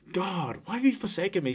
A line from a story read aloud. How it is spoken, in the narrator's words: Jesus cried this out